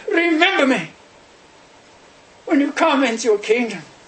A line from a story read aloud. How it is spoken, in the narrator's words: he cries